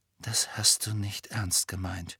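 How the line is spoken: Quiet. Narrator (German): sagte Harry leise

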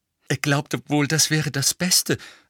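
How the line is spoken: Breathless. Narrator (German): sagte Hermine ziemlich atemlos

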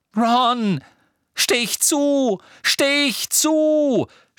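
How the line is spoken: Shouting. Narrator (German): schrie Harry

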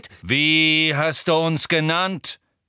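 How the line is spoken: Centaur calling out. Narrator (German): rief ein wild aussehender schwarzer Zentaur

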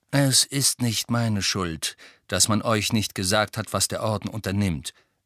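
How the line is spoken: Explained calmly. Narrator (German): erklärte Sirius ruhig

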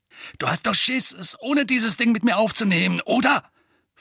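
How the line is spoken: Snarl. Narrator (German): fauchte Dudley

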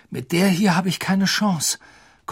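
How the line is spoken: Panting. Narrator (German): keuchte Harry

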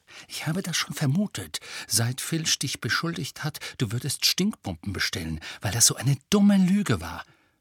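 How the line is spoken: Whispering. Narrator (German): flüsterte Hermine

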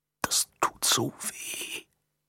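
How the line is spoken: Barely audible whisper. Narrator (German): kaum hörbar flüstern

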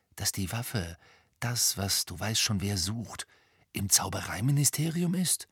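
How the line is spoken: Whispering. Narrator (German): flüsterte Ron

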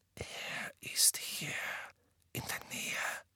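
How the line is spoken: Convinced whisper. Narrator (German): flüsterte überzeugt

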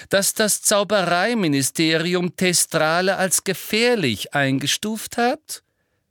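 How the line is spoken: Loud interruption. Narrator (German): unterbrach ihn Umbridge laut

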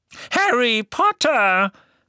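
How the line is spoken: Excited squeak. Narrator (German): quiekte eine aufgeregte Stimme

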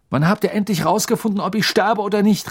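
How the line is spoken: Surprised shout. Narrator (German): rief Harry sogar zu seiner eigenen Überraschung

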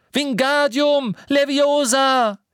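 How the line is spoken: Desperate shout. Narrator (German): Verzweifelt rief

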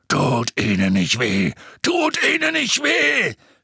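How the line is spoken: Screaming. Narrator (German): schrie

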